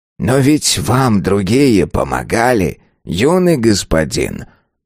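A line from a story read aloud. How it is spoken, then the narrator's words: Calm old man. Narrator (Russian): спокойно сказал старик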